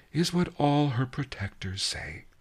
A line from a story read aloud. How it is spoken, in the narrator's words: sighed the Key Rabbit